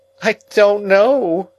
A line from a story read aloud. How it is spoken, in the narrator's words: I whimpered